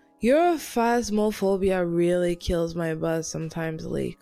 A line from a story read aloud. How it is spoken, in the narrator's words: Corey sighed